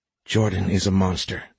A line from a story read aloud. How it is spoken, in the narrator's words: Trey whispered